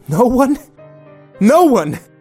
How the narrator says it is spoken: yelled

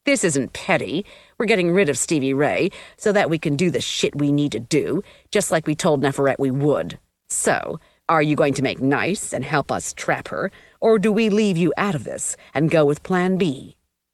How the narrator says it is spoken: snarled

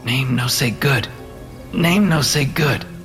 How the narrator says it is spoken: Alex muttered

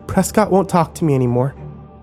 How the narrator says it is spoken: she said more calmly this time as she tried to compose herself

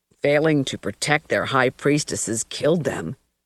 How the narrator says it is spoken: Stark said, his voice completely expressionless

